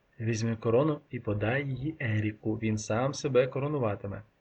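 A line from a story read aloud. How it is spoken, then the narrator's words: Whispered. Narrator (Ukrainian): пошепки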